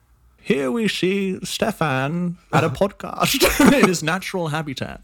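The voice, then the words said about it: Imitates a British narrator's voice. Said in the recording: “easy impersonation ... impersonation of David Attenborough ... British guy ... Very British”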